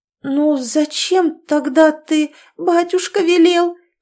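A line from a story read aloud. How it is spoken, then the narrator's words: Moaning. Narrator (Russian): простонала Ирина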